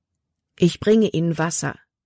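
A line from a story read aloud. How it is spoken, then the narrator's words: Plain. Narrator (German): sagte Caleb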